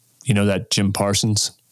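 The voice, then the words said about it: Imitates another person's voice. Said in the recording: “my impersonation of my dad ... he said it the same way, the same inflection”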